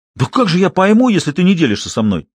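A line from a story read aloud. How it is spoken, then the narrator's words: Almost indignant exclamation. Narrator (Russian): почти возмущенно воскликнул кинолог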